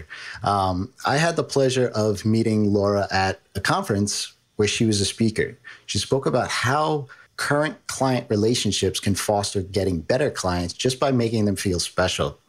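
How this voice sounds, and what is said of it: New York accent. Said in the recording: “I got my New York accent”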